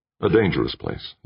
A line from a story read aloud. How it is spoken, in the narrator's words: Jordan said